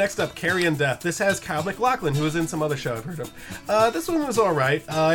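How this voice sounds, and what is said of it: Usual voice. Nothing is said of it.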